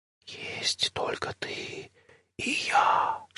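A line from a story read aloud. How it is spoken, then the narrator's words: Whisper. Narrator (Russian): шепнула зима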